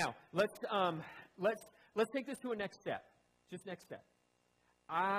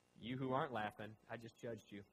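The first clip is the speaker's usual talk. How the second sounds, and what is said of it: Sarcastic mock-stern delivery. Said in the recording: “I'm just being sarcastic.”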